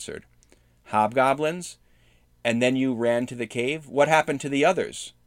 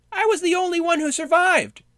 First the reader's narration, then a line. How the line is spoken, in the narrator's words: Snog squealed